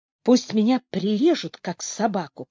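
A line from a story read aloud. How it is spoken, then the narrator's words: Whispered. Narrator (Russian): прошептал Паркер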